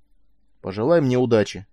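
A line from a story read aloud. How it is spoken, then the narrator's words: Muffled mutter. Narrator (Russian): пробормотал он через плечо, стиснутый узкими стенками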